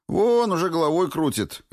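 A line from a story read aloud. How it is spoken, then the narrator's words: Cheerful reply. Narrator (Russian): весело откликнулся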